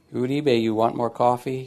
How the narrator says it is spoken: he says

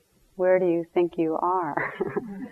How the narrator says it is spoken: The attendant said softly

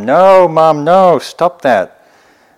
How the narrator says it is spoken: there's Satan in hell, and he's shouting to his mom

